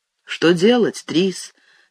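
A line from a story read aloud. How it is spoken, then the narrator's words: Soft. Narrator (Russian): сказал я мягко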